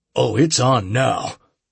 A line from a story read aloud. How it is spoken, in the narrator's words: I grunted